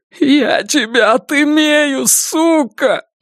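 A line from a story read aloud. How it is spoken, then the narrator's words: Sobbing. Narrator (Russian): рыдает Донован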